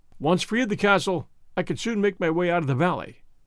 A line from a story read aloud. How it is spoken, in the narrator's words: said the brigand